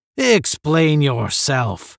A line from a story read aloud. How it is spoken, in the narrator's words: the general said hoarsely